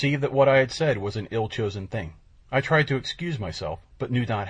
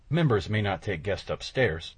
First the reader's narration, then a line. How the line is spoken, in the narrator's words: I muttered